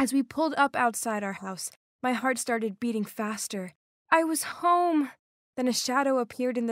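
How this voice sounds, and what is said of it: Usual voice. Nothing is said of it.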